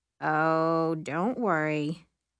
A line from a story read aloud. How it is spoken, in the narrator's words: Will says sarcastically